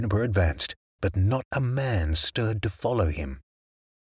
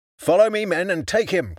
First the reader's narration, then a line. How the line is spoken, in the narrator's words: cried Juniper